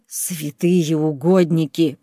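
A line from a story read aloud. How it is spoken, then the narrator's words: Growled. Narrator (Russian): прорычал Жиль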